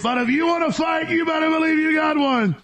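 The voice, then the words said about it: Imitates another person's voice. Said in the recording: “I got a decent Alex Jones impersonation. ... that's my Alex Jones imitation.”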